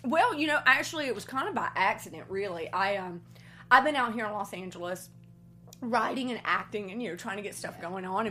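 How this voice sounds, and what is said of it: Thick Southern American accent. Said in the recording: “you still have your Southern accent. I really think the reason that I have it still so thick”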